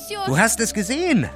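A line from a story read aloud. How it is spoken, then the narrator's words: Calling out. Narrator (German): rief sie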